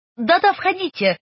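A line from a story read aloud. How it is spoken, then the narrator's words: Shouting. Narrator (Russian): крикнула Кларисса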